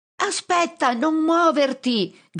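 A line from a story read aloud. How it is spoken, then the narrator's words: Shouting with full force. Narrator (Italian): grido con tutte le mie forze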